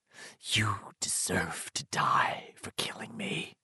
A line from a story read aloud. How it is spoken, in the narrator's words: George whispered